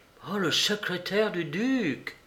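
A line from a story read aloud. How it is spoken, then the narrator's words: Exclaimed. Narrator (French): s'écria Holmes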